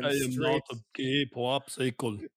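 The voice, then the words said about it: Bad imitation of another person's voice. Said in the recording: “That was a bad impression.”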